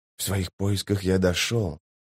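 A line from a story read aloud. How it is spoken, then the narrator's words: Quiet, measured. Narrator (Russian): тихо и размеренно проговорил Рад Феннер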